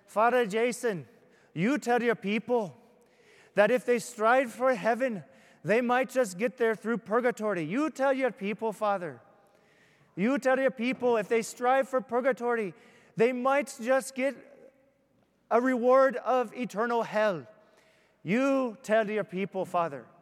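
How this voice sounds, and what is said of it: Bad put-on Irish brogue. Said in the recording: “that was a horrible Irish brogue, I know. It's really bad.”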